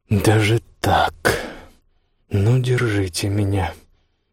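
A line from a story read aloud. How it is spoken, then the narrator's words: Muttered. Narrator (Russian): бормотал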